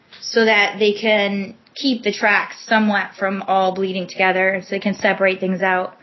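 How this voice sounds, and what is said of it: Slight Canadian accent. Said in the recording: “you keep saying out ... a little bit of a Canadian accent”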